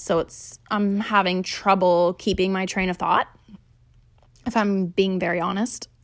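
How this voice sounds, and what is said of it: Angry, frustrated, displeased tone. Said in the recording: “I'm getting very angry and frustrated thinking about this... It's probably clear by my tone of voice that I'm not pleased”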